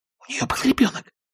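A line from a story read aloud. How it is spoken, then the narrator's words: Whispered in ear. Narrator (Russian): прошептала Скарлетт на ухо Кэтлин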